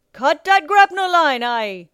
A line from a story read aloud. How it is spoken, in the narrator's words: Captain Nightlighter roared